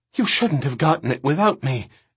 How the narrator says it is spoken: Erin gasped

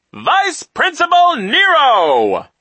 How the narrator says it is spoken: the man announced in a loud voice

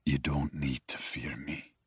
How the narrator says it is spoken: he says softly

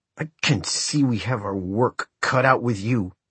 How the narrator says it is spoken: said in a tight voice

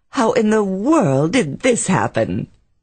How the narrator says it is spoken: Carrie laughed merrily

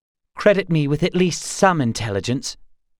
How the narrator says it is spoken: Gar snapped

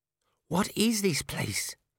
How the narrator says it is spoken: Cheery whispered

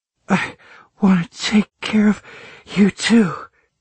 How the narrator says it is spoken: she panted

